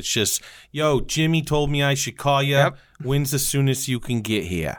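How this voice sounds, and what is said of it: Put-on accent. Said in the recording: “that accent? That's pretty good.”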